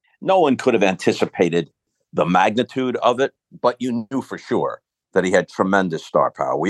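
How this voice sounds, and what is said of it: Usual voice. Nothing is said of it.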